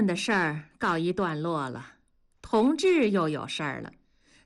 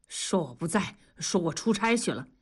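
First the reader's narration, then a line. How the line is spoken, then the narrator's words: Hushed voice. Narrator (Chinese): 同志赶紧摆手，压低声音说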